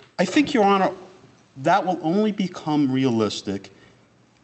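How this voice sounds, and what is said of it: Usual voice. Nothing is said of it.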